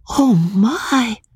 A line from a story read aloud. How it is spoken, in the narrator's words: Magnolia would exclaim inadequately